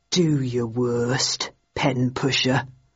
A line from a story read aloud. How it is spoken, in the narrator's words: said softly